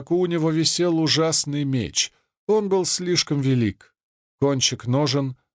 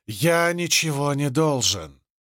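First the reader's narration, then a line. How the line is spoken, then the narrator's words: Hiss. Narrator (Russian): прошипел Зет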